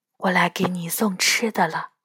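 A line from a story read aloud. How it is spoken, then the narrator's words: Soft reply. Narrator (Chinese): 我轻声回答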